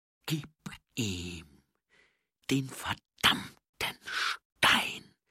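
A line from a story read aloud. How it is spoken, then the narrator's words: Hissing snap. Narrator (German): fauchte sie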